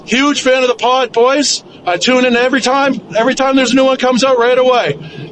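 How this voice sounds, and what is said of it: Canadian East Coast accent. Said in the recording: “That is a good what East Coaster right there. ... with that accent. I love it. ... he sounded like he just was on Trailer Park Boys”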